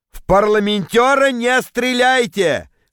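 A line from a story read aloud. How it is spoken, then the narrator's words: Shouting. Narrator (Russian): Крикнул я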